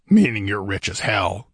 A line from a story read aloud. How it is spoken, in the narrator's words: snorted Conan